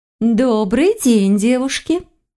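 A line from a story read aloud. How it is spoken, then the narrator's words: Melodious greeting. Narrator (Russian): мелодичным голосом поприветствовала она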